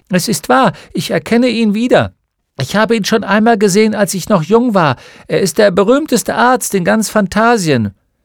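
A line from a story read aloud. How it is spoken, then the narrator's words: Old woman calling out. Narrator (German): Eine gebückte alte Frau ... rief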